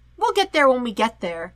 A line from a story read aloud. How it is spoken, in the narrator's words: he chirps